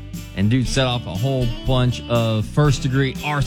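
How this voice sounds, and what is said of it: Usual voice. Nothing is said of it.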